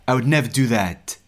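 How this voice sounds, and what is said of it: French speaker attempting American accent. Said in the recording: “he had a strange accent. There's definitely some French in there, but he was attempting some kind of American accent”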